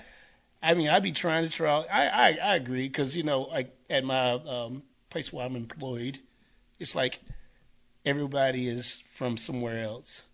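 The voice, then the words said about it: Deep, thick Southern US accent. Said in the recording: “we have what you would call a South Carolina ... a deep, thick Southern accent ... Southern accent, yeah.”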